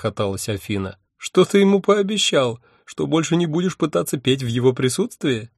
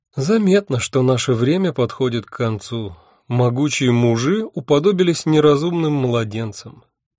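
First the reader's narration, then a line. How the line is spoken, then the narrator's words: Sighing. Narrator (Russian): вздохнула Афина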